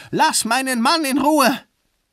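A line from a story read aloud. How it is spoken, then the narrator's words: Screaming. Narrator (German): Sie schrie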